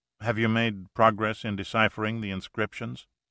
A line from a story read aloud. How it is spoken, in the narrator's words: he asked